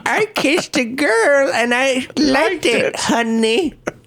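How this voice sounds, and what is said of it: Imitates an old granny's voice. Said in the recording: “best impersonation? ... Of a granny? ... Of a granny.”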